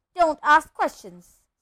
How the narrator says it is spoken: snapped his uncle

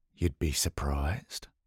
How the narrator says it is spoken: Matt muttered

